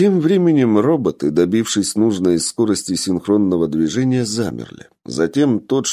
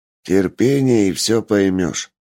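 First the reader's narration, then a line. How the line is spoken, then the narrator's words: Grumbled. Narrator (Russian): буркнул Ричард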